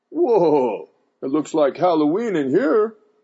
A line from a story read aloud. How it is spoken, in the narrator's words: he exclaimed